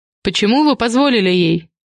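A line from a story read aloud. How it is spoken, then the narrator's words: Snort. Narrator (Russian): Влад хмыкнул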